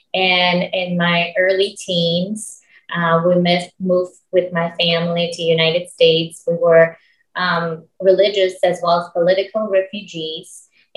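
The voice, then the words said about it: Slight Russian accent. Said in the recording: “My original language is Russian. So if you hear a little bit of accent, that's where it's from.”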